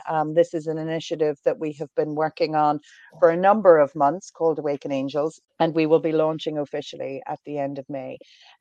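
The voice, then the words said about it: Irish accent. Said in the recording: “from my accent, I am Irish”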